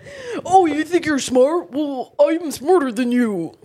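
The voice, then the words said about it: Imitated generic boy voice. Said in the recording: “I'm doing an impression of any boy... pretty good boy... imitation”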